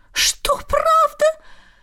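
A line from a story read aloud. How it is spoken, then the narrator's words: Shrill squeal. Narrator (Russian): взвизгнула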